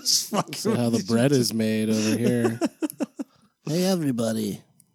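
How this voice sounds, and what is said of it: Impression of a co-host's voice. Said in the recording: “that's my impression of Dirk ... He's pretty spot on ... That was pretty good”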